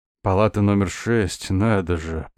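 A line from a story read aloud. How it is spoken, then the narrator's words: Hoarse, smirking. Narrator (Russian): проговорил хриплым голосом и усмехнулся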